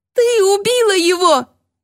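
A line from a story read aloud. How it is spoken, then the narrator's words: Shrieking accusation. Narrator (Russian): визжала Рокси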